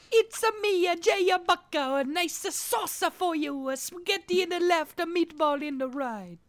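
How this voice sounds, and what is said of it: Exaggerated fake Italian accent. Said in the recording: “stupid-ass Italian accents”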